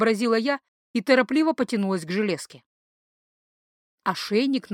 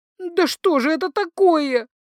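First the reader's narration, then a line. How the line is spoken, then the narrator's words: Howling behind hands. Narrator (Russian): взвыла я, прикрывая лицо ладонями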